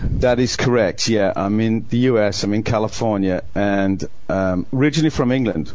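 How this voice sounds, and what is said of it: English accent. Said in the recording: “from your accent that you've got an English accent”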